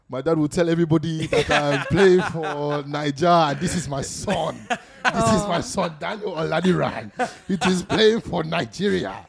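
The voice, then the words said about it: Put-on Nigerian accent. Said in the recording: “The accent. I love when you do the accent.”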